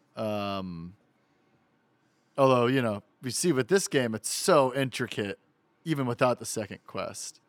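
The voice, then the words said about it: Wise guy New York accent. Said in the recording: “I got my real wise guy New York accent going this episode.”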